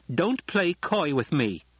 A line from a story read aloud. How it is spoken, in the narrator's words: she snapped